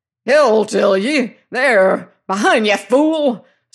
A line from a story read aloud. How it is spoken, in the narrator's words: snarled Penfeather